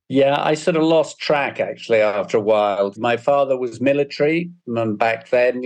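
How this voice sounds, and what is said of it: Slight British accent. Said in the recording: “a slight British accent”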